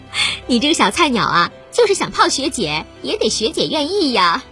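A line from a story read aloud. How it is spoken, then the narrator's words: Giggling. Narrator (Chinese): 林梦咯咯的笑着说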